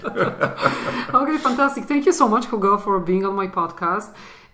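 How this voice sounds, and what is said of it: Strong non-native English accent. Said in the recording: “we are not Native Americans, as you can hear. We were not born in America. That's why our accents are pretty strong, especially mine”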